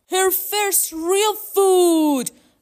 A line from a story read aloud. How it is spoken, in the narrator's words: cried Dad